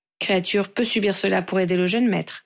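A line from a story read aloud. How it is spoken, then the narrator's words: Stoic servant, reassuring. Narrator (French): assura le serviteur d'une voix stoïque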